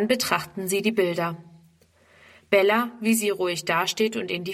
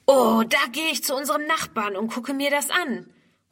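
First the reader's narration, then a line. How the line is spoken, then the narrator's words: Calling out. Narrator (German): ruft Ernst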